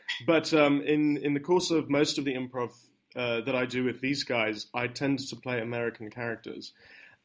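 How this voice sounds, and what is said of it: British accent. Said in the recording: “my natural accent, as you can perhaps tell, is fairly British.”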